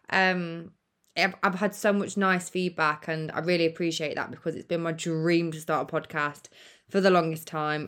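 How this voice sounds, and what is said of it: British English accent. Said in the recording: “obviously the UK, where I'm from ... what does my accent sound like to you lot?”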